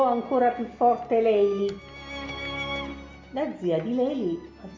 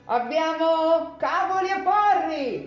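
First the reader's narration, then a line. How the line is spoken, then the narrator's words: Shouted. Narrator (Italian): urlò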